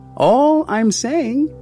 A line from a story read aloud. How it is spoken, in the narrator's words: his voice rising above my tears